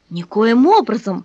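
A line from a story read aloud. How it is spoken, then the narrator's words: Calm objection. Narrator (Russian): спокойно возразил священник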